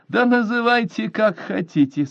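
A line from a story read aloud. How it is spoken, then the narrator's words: After laughing. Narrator (Russian): сказала она, отсмеявшись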